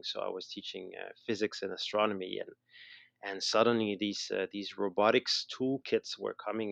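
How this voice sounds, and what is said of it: Slight Montreal Canadian accent. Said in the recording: “I still have a little accent, I guess. So I'm from Montreal. I'm from Canada.”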